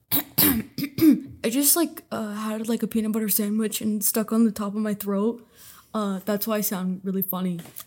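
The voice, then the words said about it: Imitates another person's voice. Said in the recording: “very good impression of Trent ... I can tell it's an impression”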